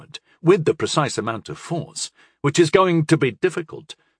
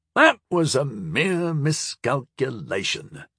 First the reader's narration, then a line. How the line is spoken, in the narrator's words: Onranyan muttered